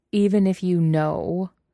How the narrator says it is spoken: says Wei Wuxian, laying on as much mocking stress as he can on the word

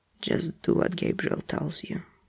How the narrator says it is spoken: Dean says through his teeth, voice flat but fierce

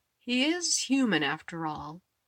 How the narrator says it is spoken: Eddie drawled, a smirk ringing in his tone

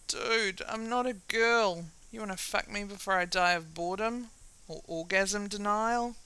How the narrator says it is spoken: Sam groans

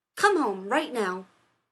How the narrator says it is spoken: Rodney snapped

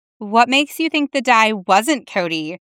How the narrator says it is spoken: she asked

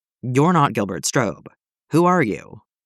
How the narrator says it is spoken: The man chuckled

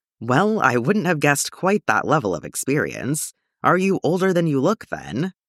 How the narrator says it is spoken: the man asked

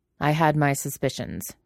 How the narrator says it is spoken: Uncle says curtly

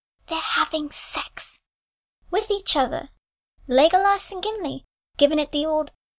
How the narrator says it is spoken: in a stage whisper said

